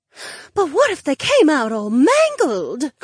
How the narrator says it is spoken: Cleia gasped

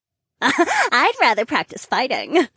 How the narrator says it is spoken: Trina giggled

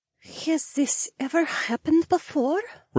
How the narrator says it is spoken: Rebecca asked quietly

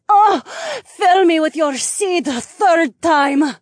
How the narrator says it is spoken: she cried out

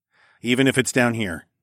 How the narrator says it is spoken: I said firmly

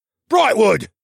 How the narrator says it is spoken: Gordo barked, seemingly at the end of his short patience

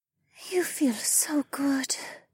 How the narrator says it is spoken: Amaya murmured

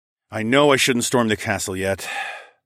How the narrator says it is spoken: sighed

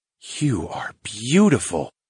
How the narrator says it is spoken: I whispered to the pixie

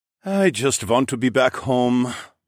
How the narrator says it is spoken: Amin the Viking noble sighed

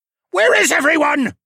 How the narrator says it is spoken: Lerman shouted

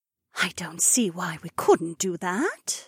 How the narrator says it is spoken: Edeny whispered

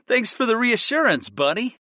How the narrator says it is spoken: I laughed at my familiar

